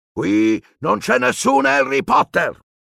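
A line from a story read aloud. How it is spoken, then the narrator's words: Roaring. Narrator (Italian): ruggì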